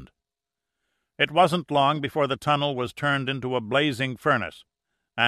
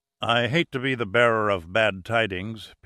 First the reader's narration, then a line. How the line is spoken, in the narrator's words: Pitt said, his voice grim